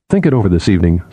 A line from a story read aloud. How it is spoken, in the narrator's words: Sephira said